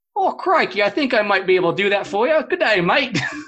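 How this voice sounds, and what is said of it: Australian accent, impressively done. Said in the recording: “say good day, mate, in an Australian, their best Australian accent ... that was impressive”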